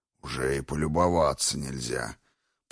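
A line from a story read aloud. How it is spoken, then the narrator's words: Stone grumbling. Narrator (Russian): проворчал камень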